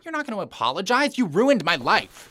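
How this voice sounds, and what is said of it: Yelling angrily. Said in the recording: “Stop yelling at me. ... No, I will not stop yelling.”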